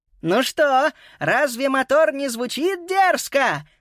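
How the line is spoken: Shouting. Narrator (Russian): закричала Виола

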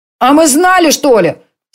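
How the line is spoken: Angry shouting boys. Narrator (Russian): сердито кричали мальчишки-рыболовы

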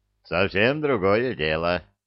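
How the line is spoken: Satisfied snort. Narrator (Russian): удовлетворенно хмыкнул Илья

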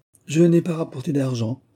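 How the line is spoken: Exclaiming. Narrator (French): s'écria Moïse alors

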